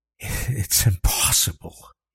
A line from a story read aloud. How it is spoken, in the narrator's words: breathed